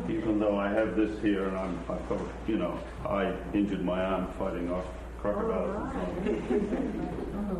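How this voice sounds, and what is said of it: Australian accent. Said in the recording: “my accent, being from Australia”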